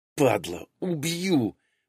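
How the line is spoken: Growl. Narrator (Russian): прорычала курсантка

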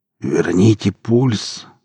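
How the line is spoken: Hoarse rasp. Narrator (Russian): прохрипел Эдик

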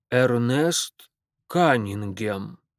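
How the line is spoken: Slow, recalling. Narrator (Russian): произнес он мое имя так медленно, словно только в этот момент вспомнил, кто я такой

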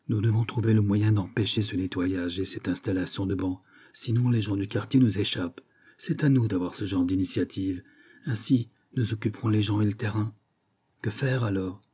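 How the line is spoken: Low-voiced leader. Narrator (French): Celui qui semble être le chef déclare, à voix basse

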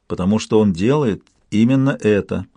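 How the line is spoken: Plain. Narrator (Russian): ответил Молкин

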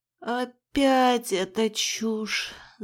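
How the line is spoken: Bewildered moan. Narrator (Russian): Застонала я, не понимая, зачем мой мозг играет в такие странные игры

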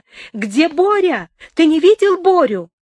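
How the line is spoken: Sudden shout. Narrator (Russian): вдруг крикнула

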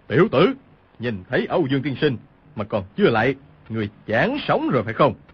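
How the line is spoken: Shouting. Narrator (Vietnamese): Cừu Thiên Nhận quát lên

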